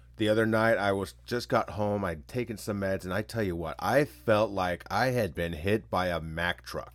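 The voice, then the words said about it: Congested, stuffy-nosed voice. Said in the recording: “Please excuse the voice. ... brutal for me with allergies ... sinuses, stuffy nose, hard to breathe”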